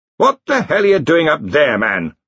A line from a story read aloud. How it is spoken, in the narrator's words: Ridcully bellowed